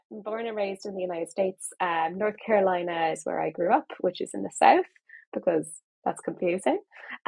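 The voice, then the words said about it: Accent between Irish and American. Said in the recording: “you sound Irish to me rather than American ... I sound in the middle ... It's kind of in the middle.”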